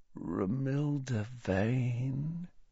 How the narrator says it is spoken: said Ron softly

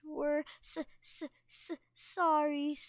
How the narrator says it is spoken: Sunny stammered

